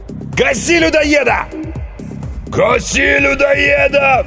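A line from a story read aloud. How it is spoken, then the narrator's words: Crowd roaring. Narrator (Russian): взревела толпа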